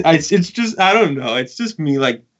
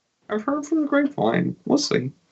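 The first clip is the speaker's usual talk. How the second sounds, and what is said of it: Low-key imitation of another person's voice. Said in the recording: “that is 100% my Lucas voice ... a really great low key Lucas impersonation”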